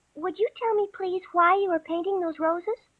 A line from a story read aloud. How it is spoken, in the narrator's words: Alice said a little timidly